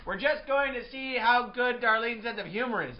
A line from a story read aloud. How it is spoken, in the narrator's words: I yelled back